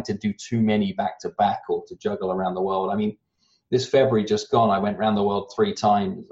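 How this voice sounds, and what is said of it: Rounded-off British accent, somewhat American. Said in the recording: “I have a rounded off British accent that sounds like I'm more American than I am British”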